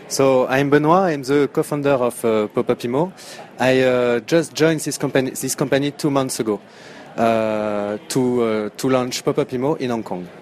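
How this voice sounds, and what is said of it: French accent. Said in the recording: “a French accent”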